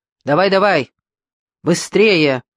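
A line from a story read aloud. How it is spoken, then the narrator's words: Shouting. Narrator (Russian): закричал Линд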